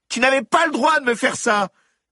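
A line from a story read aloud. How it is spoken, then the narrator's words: Screamed. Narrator (French): hurla Alaska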